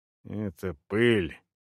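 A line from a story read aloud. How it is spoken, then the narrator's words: Gruff mutter. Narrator (Russian): буркнул Мелик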